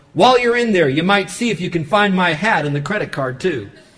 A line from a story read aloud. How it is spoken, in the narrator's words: the old geezer yelled at her through the window